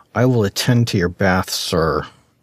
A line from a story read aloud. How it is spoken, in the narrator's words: Aster said through clenched teeth